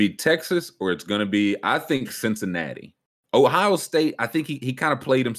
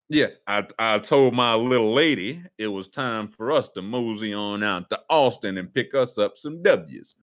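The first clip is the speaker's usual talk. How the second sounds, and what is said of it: Put-on Texan accent. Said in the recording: “Gonna be doing a Texas horn accent.”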